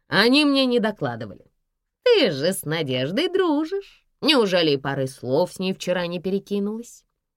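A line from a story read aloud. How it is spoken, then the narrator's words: Impatient snort. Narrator (Russian): не дождавшись ответа, фыркнула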